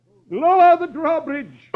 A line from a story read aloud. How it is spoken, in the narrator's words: the sheriff cries